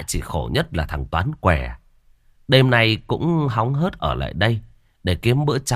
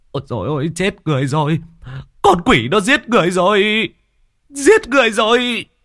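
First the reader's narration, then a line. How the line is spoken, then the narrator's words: Panicked screaming. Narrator (Vietnamese): Mấy người chứng kiến sự bất ngờ cũng hốt hoảng, miệng liên tục gào thét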